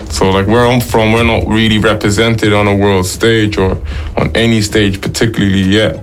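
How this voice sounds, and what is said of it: Strong Dublin accent. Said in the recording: “your accent is strong ... the Dublin accent”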